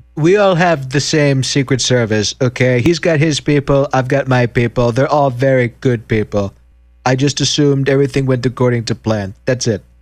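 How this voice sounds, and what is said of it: Comic impersonation of a politician. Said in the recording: “he enjoys doing that imitation, that impersonation so much”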